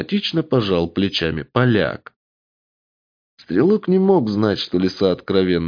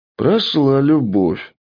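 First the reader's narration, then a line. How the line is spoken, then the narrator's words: Exhaled, after drinking. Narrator (Russian): выдохнул поляк после очередной рюмки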